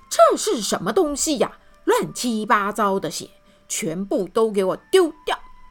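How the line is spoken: Roaring. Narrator (Chinese): 他大吼

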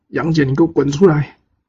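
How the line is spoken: Shouted battle challenge. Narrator (Chinese): 张奎 叫战

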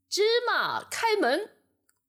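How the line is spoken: Loud shout. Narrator (Chinese): 这伙强盗 大声喊

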